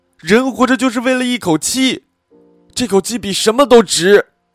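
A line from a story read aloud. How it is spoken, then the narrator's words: Suddenly louder. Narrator (Chinese): 她声音突然大了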